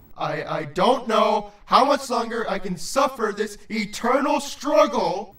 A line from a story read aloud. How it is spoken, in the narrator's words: he yelled